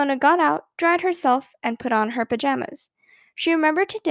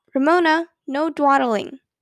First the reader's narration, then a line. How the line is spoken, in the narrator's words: Quimby called out